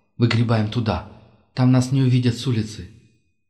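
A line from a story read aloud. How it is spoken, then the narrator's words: Whisper. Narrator (Russian): прошептал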